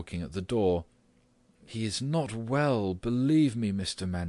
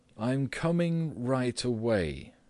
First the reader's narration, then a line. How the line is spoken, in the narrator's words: said Gregor, slowly and deliberately